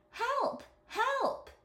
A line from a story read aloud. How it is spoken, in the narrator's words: cried the genie